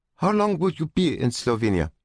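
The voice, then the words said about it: Hesitant foreign accent. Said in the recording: “spoke in her unsure accent”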